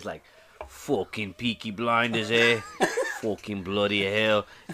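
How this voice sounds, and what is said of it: Put-on English Birmingham accent. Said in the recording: “the English accent ... I'm pretty good with some accents ... They're from Birmingham ... I'm working on different accents”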